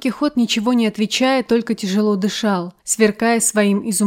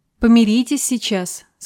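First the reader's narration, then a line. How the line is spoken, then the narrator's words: Plain. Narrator (Russian): сказала княгиня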